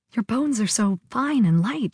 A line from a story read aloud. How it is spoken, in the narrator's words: she murmured, as if talking to herself